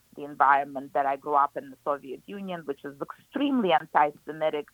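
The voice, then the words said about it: Speaker's own foreign accent. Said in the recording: “my accent makes it very confusing”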